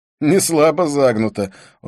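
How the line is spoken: Laughing. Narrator (Russian): снова рассмеялся

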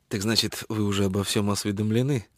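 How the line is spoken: Cold reply. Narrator (Russian): холодно ответил Шелдон

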